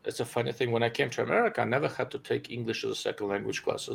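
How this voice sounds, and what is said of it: Non-native English accent. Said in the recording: “get used to his accent... Are you getting used to my accent”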